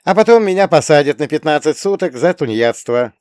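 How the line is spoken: Snorting scoff. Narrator (Russian): фыркнула

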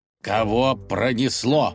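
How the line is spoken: Angry growl. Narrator (Russian): прорычал князь, гневно сверкая глазами

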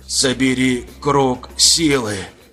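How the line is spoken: Hoarse rasp. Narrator (Russian): Прохрипел Дор

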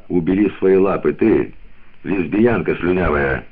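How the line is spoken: Dry reply. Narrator (Russian): Холли сухо ответила

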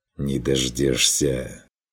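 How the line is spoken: Hissing reply. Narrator (Russian): С шипением отозвался Стрик

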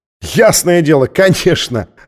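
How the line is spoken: Laughing heartily. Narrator (Russian): расхохотался, уверенный, что она шутит

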